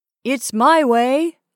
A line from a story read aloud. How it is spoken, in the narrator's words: cried